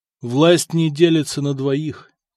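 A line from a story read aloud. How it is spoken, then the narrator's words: Sad reply. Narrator (Russian): печально ответил Самослав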